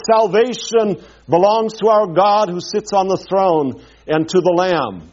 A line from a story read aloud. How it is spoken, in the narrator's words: they cried out in a loud voice